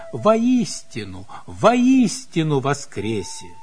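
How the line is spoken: Joyful. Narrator (Russian): А тот радостно

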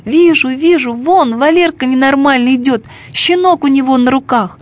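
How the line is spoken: Shouting. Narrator (Russian): Ленка закричала

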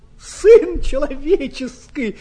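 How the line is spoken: Exclaiming. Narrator (Russian): воскликнул

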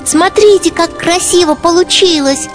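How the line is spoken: Proud squeaky child. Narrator (Russian): гордо пропищал малыш

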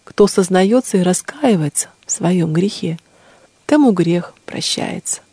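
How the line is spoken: Gentle, tender. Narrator (Russian): сказала ей владычица ласково

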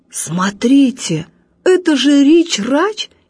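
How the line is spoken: Amazed exclamation. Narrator (Russian): изумленно воскликнул дядя Боря

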